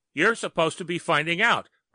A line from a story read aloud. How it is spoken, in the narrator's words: Murphy yelled